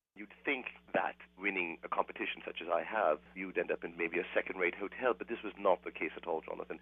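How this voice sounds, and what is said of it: Fake British accent. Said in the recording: “You've acquired a bit of an accent there... the fake British accent... this ridiculous accent”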